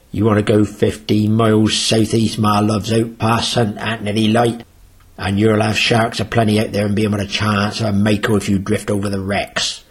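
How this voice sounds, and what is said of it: Imitated local accent of another man. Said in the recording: “That's as close an accent as I can get to Frank”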